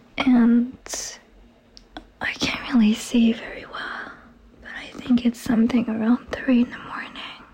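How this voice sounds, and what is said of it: Whispering. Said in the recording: “sorry about my voice. ... I don't know why I'm whispering.”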